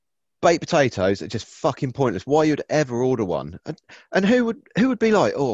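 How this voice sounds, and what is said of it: Usual voice. Nothing is said of it.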